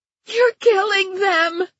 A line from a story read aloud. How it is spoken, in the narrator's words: Judy was screaming